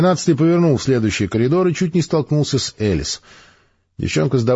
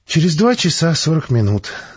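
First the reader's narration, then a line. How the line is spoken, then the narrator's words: Sighing. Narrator (Russian): вздохнул ученый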